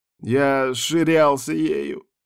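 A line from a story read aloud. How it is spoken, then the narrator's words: Tearful moan. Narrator (Russian): слезливо простонал Тибальд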